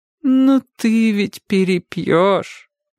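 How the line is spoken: Sad reminder. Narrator (Russian): грустно напомнила ему тетя Катя

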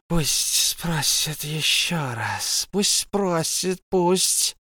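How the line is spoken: Hissing. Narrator (Russian): прошипел Голум

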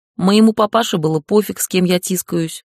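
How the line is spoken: Amused snort. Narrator (Russian): хмыкнула Лэм

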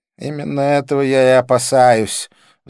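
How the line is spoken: Sighing. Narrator (Russian): вздохнул он

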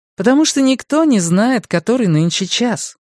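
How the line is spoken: Cheerful reply. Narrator (Russian): весело ответила Люси

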